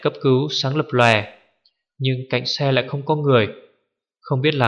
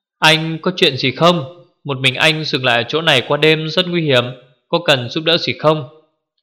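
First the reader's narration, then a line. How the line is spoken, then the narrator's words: Loud shout over wind. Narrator (Vietnamese): Gió núi rít gào, Hứa Nhược Thần hét to một câu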